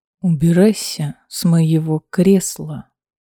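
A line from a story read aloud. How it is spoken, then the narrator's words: Very quiet demand. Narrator (Russian): совсем тихо потребовал Рульф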